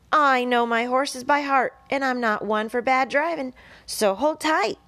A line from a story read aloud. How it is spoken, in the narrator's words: hollered Charlotte